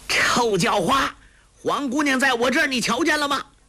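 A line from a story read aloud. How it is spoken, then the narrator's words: Loud shout. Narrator (Chinese): 高声叫道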